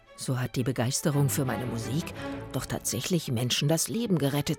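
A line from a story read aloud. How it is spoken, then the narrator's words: Murmured to himself. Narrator (German): murmelte er vor sich hin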